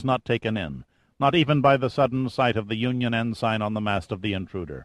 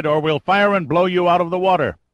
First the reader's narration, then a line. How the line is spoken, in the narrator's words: Austin cried